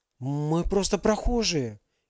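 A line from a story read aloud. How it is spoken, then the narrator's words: Frightened. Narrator (Russian): испуганно ответила за всех Алиса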